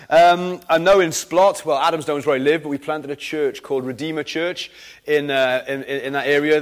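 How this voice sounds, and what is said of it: Mixed Welsh Valleys-Cardiff accent. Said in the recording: “I'm kind of a Valleys Cardiff mongrel... my accent's all over the shop”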